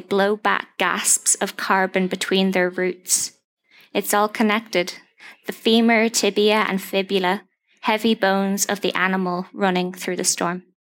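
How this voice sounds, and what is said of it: Irish Donegal accent. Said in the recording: “Gorgeous Donegal accent.”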